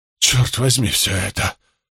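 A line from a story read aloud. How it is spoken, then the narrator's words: Muttered. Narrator (Russian): пробормотал Карло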